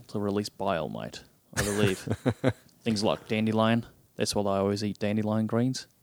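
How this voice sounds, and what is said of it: Australian accent. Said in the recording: “in that in Australian that accent”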